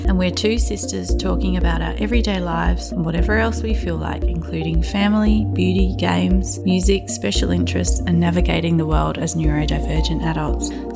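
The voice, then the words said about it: Australian accent. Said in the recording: “our Australian accent”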